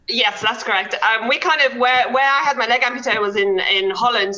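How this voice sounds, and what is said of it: Mixed South African accent. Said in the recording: “I've got a little bit of a mixture of an accent ... I definitely hear South African in your”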